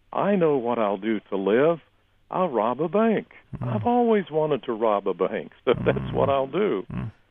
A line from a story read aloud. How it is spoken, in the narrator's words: I started laughing like a madman, saying